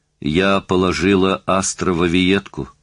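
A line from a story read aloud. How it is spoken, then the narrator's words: Plain. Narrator (Russian): сказала Мэри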